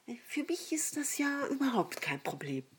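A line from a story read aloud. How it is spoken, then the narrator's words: Very quiet addition. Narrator (German): nach einer kurzen Pause fügte sie ganz leise hinzu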